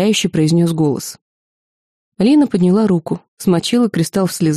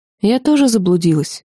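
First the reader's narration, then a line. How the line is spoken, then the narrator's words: Sad. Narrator (Russian): печально произнесла Лина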